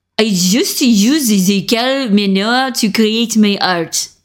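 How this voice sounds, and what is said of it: Attempted German accent, sounding French. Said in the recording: “I'm going to try to do a German accent. I've never done a German accent in my life ... That sounds kind of French. That does not sound German.”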